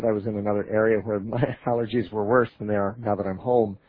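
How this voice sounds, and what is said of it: Congested, slightly affected voice. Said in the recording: “My voice is still a little affected from allergies ... I got a little congested, and my voice has been affected ever since”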